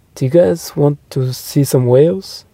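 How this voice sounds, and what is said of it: Thick put-on French accent. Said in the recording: “in a thick French accent”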